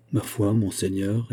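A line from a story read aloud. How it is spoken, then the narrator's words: Plain. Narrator (French): répondit D'Artagnan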